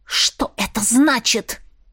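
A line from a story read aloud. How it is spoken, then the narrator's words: Breathless furious hiss. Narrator (Russian): Задыхаясь от ярости, прошипела я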